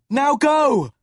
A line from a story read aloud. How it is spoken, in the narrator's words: Will yelled